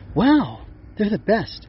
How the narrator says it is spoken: Chirp exclaimed

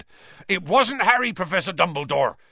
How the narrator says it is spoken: said Hagrid urgently

